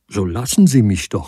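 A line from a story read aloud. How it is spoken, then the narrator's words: Angry. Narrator (German): sagte zornig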